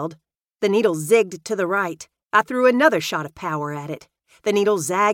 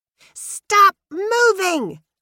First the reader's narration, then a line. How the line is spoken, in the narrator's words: screeched